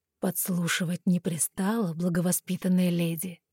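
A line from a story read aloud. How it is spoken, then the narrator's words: Soft, smiling voice. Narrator (Russian): мягко сообщил он, и в его голосе послышалась улыбка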